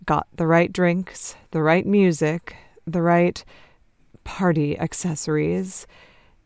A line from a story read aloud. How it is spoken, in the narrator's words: he says, with that irritable sigh he gets when he's talking about drugs